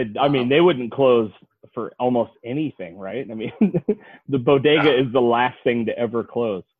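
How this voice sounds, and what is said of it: Usual voice. Nothing is said of it.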